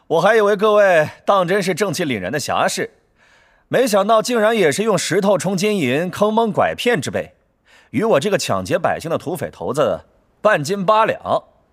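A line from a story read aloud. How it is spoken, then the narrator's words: Laughing voice from above. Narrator (Chinese): 乐月头顶上方有个声音笑道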